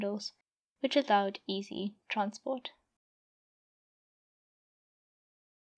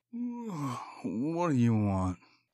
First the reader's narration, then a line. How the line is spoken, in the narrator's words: Jackal grumbled out sleepily